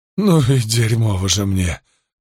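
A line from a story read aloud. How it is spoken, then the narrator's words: Moan. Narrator (Russian): простонал Карбон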